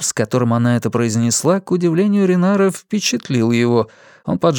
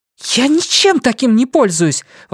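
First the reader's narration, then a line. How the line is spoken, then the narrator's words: Exclaiming. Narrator (Russian): воскликнула она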